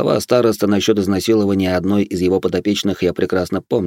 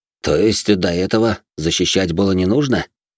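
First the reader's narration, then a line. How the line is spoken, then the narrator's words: Snorted. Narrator (Russian): хмыкнул я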